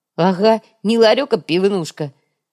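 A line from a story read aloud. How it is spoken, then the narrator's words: Ironic snort. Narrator (Russian): С иронией хмыкнул Йога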